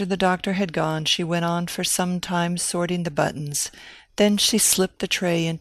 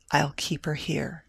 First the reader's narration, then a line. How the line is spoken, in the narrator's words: said Annalisa quietly